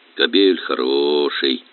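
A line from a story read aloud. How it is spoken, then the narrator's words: Drawn-out coaxing. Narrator (Russian): протянул Горелов, уговаривая пса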